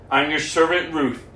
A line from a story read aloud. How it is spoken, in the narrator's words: replied